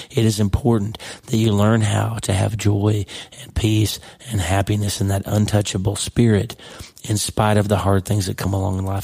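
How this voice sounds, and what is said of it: Voice not sounding normal. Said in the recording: “sorry about my voice ... with my normal voice”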